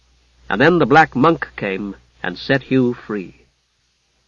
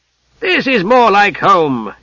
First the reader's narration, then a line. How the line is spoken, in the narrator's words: shouted cheerfully over the rumbling and thudding and cracking